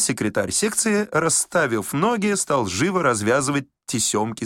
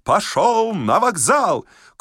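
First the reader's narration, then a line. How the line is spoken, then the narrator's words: Shouting with full force. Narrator (Russian): Толмудовский что есть силы, закричал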